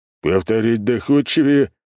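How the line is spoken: Big man's snort. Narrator (Russian): хмыкнул здоровяк

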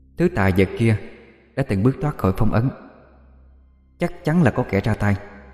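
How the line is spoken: Soft hushed voice. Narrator (Vietnamese): một giọng nói khe khẽ bên trong

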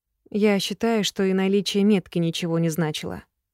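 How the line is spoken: Plain. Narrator (Russian): наконец-то ответила

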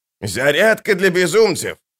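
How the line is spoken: Shouted to children. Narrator (Russian): прокричал он детям

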